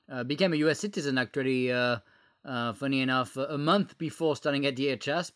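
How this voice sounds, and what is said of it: French accent. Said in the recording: “you can tell with my accent, I wasn't born in the United States. I was born in France”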